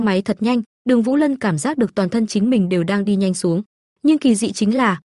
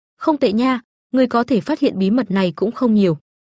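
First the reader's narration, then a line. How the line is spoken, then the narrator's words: Smiling. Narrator (Vietnamese): Tang Hâm mỉm cười nói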